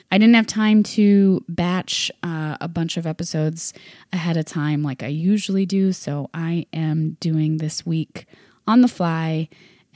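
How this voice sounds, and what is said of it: Sick, slightly off-sounding voice. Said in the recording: “I am a little under the weather this week, and you can probably hear it in my voice ... I just happened to get sick in the process ... that's why I sound a little weird”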